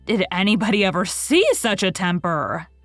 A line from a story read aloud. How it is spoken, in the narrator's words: exclaimed the horrified Mrs